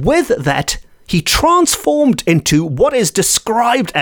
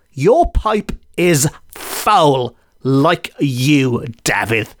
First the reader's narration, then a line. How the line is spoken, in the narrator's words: He was snarling like a beast, and he said to Sean